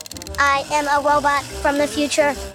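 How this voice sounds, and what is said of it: Robot voice. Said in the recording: “I like your robot voice”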